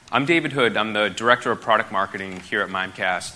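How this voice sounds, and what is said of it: Non-Australian accent. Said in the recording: “You can probably tell by my accent that I'm not from Australia.”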